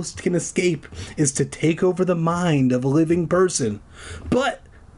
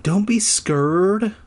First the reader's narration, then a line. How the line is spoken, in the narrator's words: Lucy pleaded